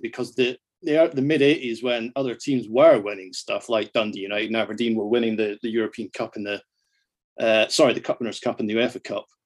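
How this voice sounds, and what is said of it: Scottish accent. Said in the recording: “my Scottish accent”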